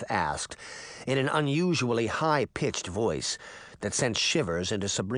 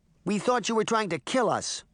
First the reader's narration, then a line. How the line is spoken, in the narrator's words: Daphne said angrily